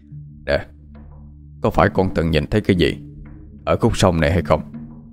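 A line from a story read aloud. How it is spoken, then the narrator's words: Serious question. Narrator (Vietnamese): Bác Lâm hỏi với giọng nghiêm túc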